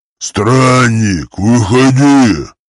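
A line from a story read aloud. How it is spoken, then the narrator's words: Orc's growl. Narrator (Russian): прорычал орк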